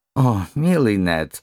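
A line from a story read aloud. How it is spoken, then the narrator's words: Moved sob. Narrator (Russian): растроганно всхлипнул Валера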